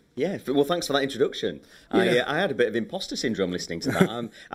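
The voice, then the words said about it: Slight English accent. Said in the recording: “he has a little English accent”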